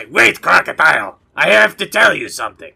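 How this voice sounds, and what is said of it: Put-on animal character voice. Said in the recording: “In my animal speaking voice,”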